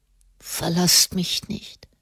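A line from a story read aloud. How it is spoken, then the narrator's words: Boy murmuring. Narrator (German): murmelte der Knabe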